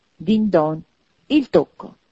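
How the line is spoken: Triumphant exclamation. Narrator (Italian): esclamò Scrooge trionfante

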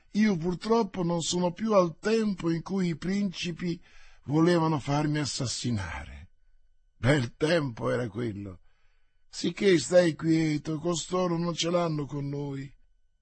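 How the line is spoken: Replied with a sigh. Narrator (Italian): rispose D'Artagnan con un sospiro

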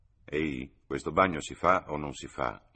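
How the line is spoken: Terrified murmur. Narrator (Italian): mormorò Freddy, terrorizzato dalla mole di filosofia che gli si andava addensando sul capo

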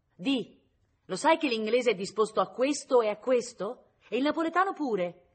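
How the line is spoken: Shouted. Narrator (Italian): gli gridava

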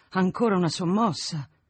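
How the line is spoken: Said with big sigh. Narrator (Italian): disse con un gran sospiro

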